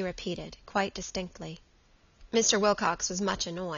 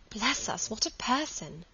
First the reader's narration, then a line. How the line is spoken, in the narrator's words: sighed Margaret